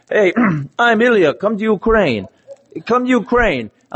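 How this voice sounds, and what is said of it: Put-on foreign accent. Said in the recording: “I'm going to kind of imitate his accent because it's not too hard to do”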